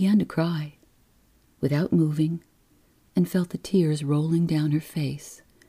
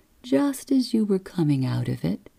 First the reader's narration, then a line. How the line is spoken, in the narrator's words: the nurse said soothingly